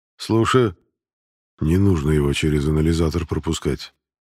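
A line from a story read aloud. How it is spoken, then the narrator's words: Quiet request. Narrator (Russian): также тихо попросил Эрик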